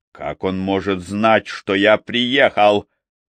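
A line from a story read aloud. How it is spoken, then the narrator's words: Angry question. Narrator (Russian): зло спросил Йоси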